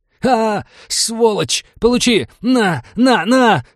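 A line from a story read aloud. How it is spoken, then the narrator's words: Furious yelling. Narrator (Russian): заорал напарник убитого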